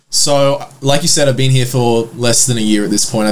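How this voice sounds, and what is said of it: Mild Australian accent. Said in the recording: “you're from Australia, correct?... It's not a very thick accent.”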